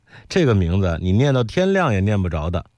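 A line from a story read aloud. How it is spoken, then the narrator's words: Laughing. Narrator (Chinese): 我笑说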